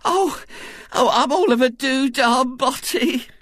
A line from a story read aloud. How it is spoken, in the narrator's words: she moaned